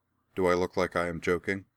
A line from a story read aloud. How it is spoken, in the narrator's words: Laura replied flatly